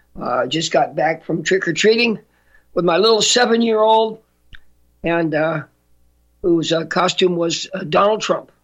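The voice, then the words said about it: Slightly hoarse voice. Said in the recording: “I guess I'm still a little bit hoarse.”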